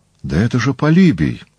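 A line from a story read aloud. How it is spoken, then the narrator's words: Exclaimed. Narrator (Russian): воскликнул Пифодор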